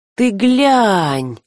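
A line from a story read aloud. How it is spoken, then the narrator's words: Surprised, interested drawl. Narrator (Russian): удивленно и заинтересованно протянул он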